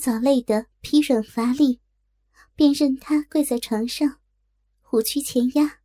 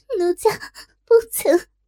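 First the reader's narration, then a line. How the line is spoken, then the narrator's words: Dazed crying. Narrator (Chinese): 若真失神哭道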